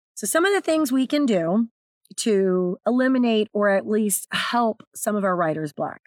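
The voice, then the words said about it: Raspy, strained hoarse voice. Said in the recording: “apologize for my voice ... so I have to talk over it ... I have a natural raspy voice. Very easy for me to blow my voice ... I had almost no speaking voice at all”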